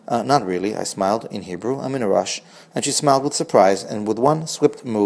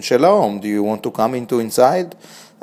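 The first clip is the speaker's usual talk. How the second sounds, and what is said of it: Thick Israeli accent. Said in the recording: “called out in a thick Israeli accent”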